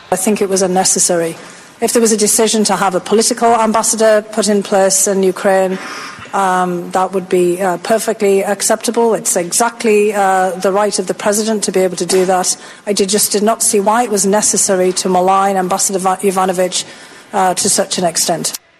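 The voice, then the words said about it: Imitated British accent. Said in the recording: “You like that accent? Pretty good, huh? She's British.”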